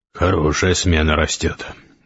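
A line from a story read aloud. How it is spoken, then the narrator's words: Tired. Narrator (Russian): устало произнес Гессер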